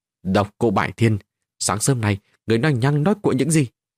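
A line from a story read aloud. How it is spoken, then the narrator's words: Angry question. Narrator (Vietnamese): Gia nhân giận dữ mà hỏi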